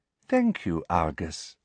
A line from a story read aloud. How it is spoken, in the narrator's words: she said sweetly